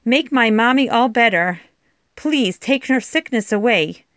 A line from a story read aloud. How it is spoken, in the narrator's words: cried